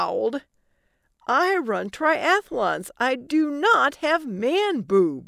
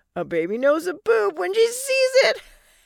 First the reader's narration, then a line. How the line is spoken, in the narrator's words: Allie said between laughs